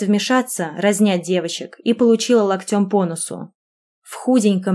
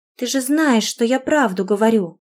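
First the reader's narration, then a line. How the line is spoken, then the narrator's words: Little girl whimpering. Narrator (Russian): Захныкала малышка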